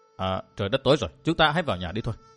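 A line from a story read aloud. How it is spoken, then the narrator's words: Gentle reminder. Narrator (Vietnamese): Vô Tư Minh khẽ nhắc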